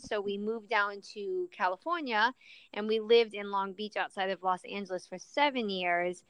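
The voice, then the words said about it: Mixed European, Chicago and Southern accent. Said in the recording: “You have kind of like a European accent. ... But then you said something, and it was total Chicago. But then you got some Southern in you, too.”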